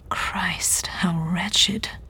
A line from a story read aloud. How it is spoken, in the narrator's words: he said, his voice barely above a whisper